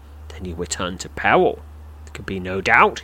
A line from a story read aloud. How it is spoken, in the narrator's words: says grimly